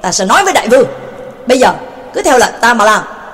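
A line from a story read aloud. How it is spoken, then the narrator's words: Angry shout. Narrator (Vietnamese): Quách Nhật Điệp Thanh tức tối hét lên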